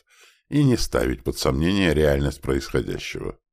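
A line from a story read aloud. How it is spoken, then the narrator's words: Soft. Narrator (Russian): мягко сказал Астерот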